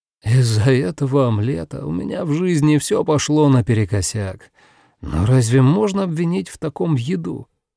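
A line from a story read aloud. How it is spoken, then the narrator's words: Heavy sigh. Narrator (Russian): Такаюки тяжело вздохнул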